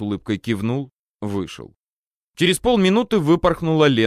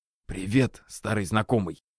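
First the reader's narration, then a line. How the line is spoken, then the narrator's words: Joyful whisper. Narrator (Russian): радостным шепотом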